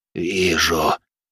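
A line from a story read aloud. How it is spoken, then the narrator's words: Hoarse, heavy man. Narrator (Russian): хрипло произнес толстый Спад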